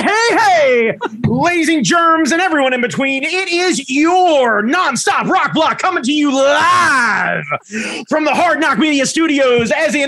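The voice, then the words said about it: Over-the-top 80s radio DJ voice. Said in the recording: “I need an 80s DJ voice. I need you to bring your 80s DJ voice ... Nothing comes harder than an 80s coked out of his mind DJ”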